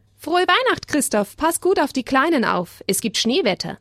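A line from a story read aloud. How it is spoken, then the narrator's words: Calling out. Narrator (German): der Turnlehrer rief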